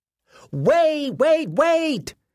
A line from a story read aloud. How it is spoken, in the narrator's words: Cecil Butterworth shouted, racing across the playground